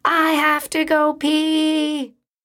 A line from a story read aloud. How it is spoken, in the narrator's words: yelled